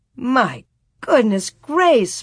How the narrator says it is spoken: Ma exclaimed

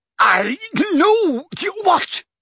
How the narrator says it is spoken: spluttered Mundungus, who was slowly turning purple

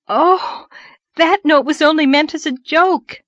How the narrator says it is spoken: gasped Anne

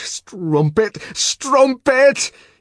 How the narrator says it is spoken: he shouted at every blow, as though it were Lenina

